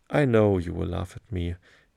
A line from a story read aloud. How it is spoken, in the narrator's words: he replied